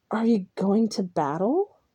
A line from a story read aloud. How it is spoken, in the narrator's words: I whispered